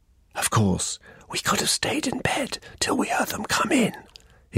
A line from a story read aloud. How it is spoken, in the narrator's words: whispered